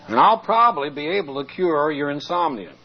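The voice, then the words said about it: Lower, softer speaking voice. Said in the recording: “I'll talk lower.”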